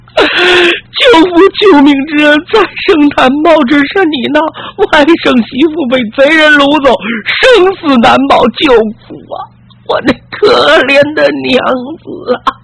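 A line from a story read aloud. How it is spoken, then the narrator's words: Wailing, sobbing. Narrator (Chinese): 齐文栋嚎啕大哭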